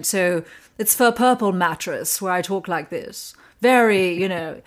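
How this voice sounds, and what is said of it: Posh British accent, like Elizabeth Hurley. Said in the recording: “They wanted a posh British accent. ... I was thinking like Elizabeth Hurley.”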